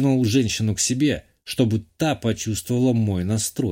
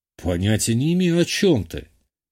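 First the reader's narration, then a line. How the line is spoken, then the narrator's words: Smirking. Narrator (Russian): хмыкнул я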